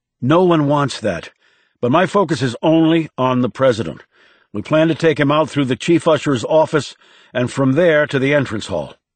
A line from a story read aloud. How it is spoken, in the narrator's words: The director said curtly